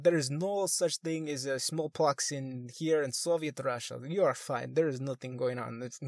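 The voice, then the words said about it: Bad put-on Russian accent. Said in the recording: “I'm doing a horrible Russian accent”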